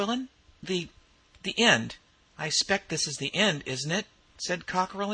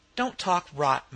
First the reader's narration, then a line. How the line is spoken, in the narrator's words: Mequillen said sharply